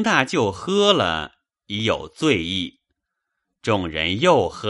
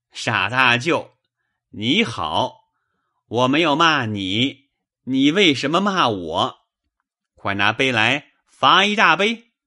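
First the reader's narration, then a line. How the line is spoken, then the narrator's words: Laughing. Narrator (Chinese): 贾强也忍不住的笑，说道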